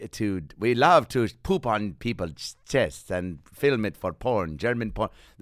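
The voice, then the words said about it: Fake German accent. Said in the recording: “That's not a real German accent”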